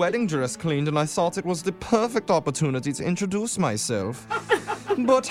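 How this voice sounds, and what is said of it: Usual voice. Nothing is said of it.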